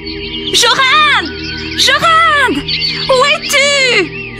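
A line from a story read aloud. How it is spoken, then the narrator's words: Screamed. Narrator (French): hurla-t-il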